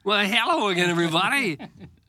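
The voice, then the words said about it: Minor league baseball announcer voice. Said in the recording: “the minor league baseball announcer voice”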